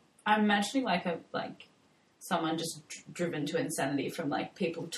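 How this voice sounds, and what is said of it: Usual voice. Nothing is said of it.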